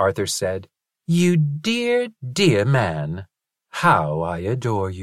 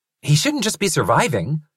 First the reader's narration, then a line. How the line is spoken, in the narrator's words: Linus said irritably